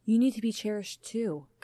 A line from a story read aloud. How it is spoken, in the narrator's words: Kaya murmured